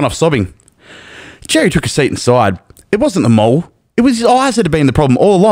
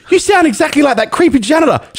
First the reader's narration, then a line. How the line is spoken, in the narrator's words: cried